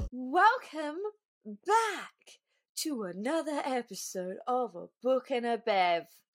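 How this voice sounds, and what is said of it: Weird put-on voice. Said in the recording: “Don't know why I did that in like such a weird voice”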